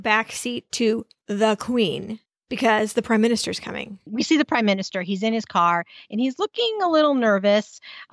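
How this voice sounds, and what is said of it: American accent. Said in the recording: “my crass American accent”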